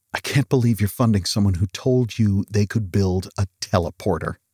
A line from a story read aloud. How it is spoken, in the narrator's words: whispered Mike